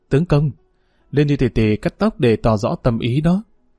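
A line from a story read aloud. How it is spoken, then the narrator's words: Sorrowful voice. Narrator (Vietnamese): Hàn Áo Nương giọng đau xót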